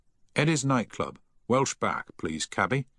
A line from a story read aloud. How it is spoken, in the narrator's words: he said firmly